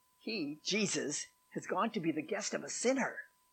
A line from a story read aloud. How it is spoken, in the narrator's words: all the people began to mutter